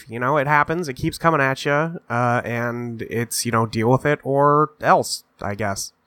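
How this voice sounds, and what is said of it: Sick, congested voice. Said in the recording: “if I sound a little sick ... I just got over a nasty little head cold ... I sound like this right now”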